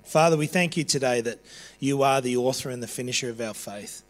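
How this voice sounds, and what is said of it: Raspy, strained voice. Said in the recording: “I've got no voice whatsoever left ... I'm hollering at the top of my voice. So you'll have to forgive me for my raspy voice.”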